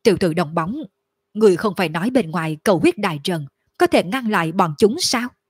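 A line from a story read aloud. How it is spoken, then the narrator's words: Tense, deep gruff voice. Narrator (Vietnamese): Lôi Hống trong lòng khẩn trương ồm ồm nói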